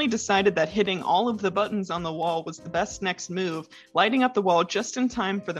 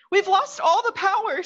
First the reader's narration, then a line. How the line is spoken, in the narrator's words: Sayaka cried